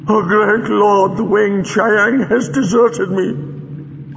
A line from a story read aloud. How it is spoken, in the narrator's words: sobbed Chang